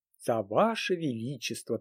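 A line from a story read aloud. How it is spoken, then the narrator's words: Solemn. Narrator (Russian): торжественно произнесла Альдона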